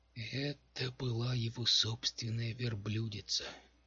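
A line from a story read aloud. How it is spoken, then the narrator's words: Sad voice. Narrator (Russian): печально произнес Мэл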